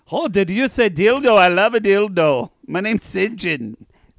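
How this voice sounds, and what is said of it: Badly done put-on accent. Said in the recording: “That doesn't sound like South African. ... Your accent's you fucked great. Up”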